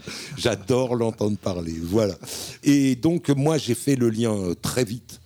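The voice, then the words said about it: Parisian French accent. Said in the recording (French): “malgré mon accent parisien”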